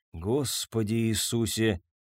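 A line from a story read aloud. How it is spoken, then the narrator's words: Mumbling. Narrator (Russian): пробормотал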